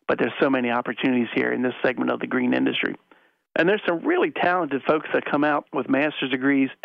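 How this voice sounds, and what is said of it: Southeast Pennsylvania accent. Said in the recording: “your Southeast PA accent”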